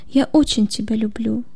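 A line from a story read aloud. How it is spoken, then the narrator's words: Near whisper. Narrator (Russian): произнесла почти шепотом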